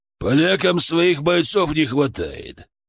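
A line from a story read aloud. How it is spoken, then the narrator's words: Bear growling grimly. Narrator (Russian): прорычал медведь, мрачно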